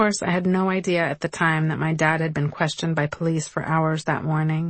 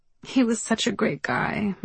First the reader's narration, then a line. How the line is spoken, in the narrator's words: sobbed, tears raining down